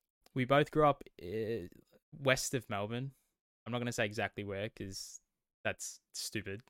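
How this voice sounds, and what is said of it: Australian accent. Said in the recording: “if you can't tell from accents, if you aren't listening from Australia, we are Australian.”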